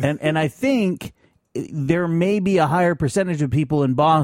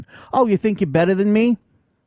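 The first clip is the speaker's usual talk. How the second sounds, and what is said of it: Put-on Boston accent. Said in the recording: “That was a good little accent. ... Nailed it.”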